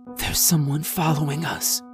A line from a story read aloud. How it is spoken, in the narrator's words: Sammy said in a choked whisper